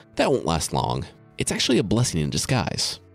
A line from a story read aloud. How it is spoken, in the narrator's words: Gawain said